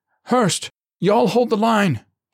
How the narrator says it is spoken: he cried

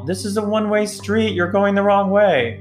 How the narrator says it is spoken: A PA yelled

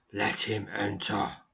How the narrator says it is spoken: rumbles a deep, powerful voice from somewhere within the structure

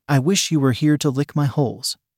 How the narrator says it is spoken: Abby said nervously

